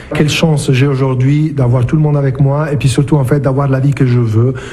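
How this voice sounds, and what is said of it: Italian accent in French. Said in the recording (French): “Il est italien d'origine, on reconnaît son bel accent.”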